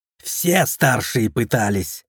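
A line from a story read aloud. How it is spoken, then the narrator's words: Curt angry remark. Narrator (Russian): зло бросило Вхагар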